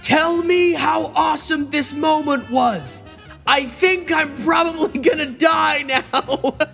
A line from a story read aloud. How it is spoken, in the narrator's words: I'll just shout to Shadi